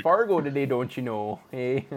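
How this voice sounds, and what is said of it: Put-on Minnesotan accent, fairly good. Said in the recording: “your attempt at a Minnesotan accent for your catchphrase ... Not bad ... honestly.”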